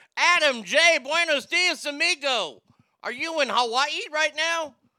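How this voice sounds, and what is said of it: Voice rises to higher pitch. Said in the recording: “my voice went up like that for Hawaii”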